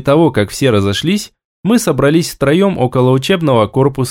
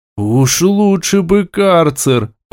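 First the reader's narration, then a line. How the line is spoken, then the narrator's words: Groaning. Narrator (Russian): простонал Тарк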